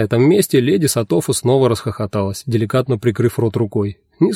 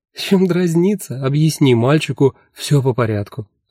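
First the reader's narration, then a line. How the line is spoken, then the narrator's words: Demanding after laughing. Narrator (Russian): отсмеявшись, потребовала леди Сатофа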